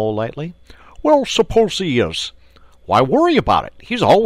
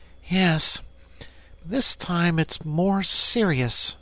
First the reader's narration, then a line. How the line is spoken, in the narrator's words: said the rat gravely